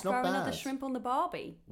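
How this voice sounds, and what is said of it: Put-on Australian accent. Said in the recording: “I can do an Australian accent all right, though, mate.”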